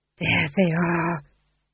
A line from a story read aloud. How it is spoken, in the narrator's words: he breathed